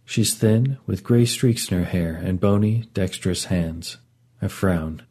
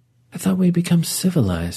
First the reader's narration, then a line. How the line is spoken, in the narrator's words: she sighs